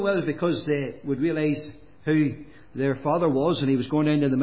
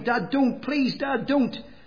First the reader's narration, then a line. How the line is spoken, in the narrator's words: my boys near cried